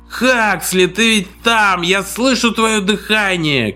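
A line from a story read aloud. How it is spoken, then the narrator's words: Drunken shouting. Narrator (Russian): кричал пьяный голос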